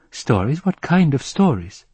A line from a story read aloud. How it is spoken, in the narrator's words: God sighed in resignation